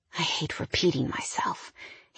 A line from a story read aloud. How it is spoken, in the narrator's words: he whispered in my ear